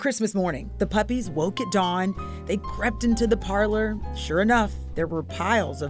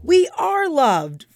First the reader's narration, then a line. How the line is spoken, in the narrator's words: Freckles cried